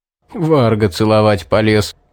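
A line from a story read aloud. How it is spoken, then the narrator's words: Chuckling. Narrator (Russian): хохотнул Стоун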